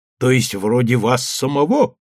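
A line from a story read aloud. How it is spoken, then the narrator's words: Booming laughter. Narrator (Russian): гулко расхохотался Андреев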